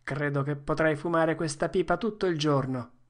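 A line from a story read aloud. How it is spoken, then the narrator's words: Plain. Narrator (Italian): disse Joe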